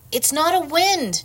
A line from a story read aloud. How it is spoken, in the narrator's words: Nim shouted